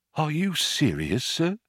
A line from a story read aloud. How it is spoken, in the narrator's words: he said in a small whisper which had the effect of silencing the pub